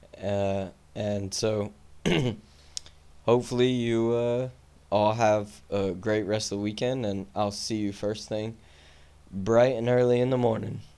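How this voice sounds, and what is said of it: Strained, fading voice. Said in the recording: “I'm losing my voice right now”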